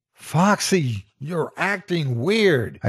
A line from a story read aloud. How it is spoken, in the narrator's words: I yell, trying to escape his grasp